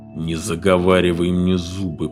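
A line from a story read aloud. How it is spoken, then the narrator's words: Through gritted teeth. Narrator (Russian): процедил Фред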